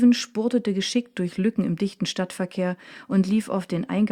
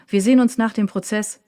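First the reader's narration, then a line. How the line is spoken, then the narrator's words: Called after someone. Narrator (German): rief Leimbach ihm nach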